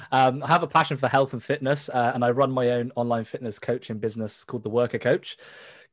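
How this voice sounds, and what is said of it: British accent. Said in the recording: “I'm from the UK, as you can probably hear from the accent.”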